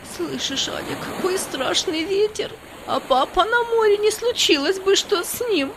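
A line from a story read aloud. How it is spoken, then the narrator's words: Sobbing. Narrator (Russian): Она зарыдала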